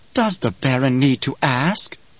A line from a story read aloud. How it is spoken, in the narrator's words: Piter whispered